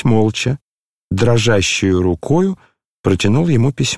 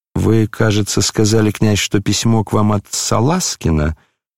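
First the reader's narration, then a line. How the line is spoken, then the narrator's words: Plain. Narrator (Russian): спросил Птицын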